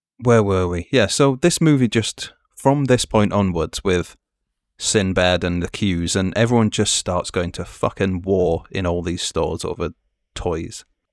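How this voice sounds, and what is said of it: Northern English accent. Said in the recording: “my accent doxes me anyway, I think. Yeah. That is not a southern man.”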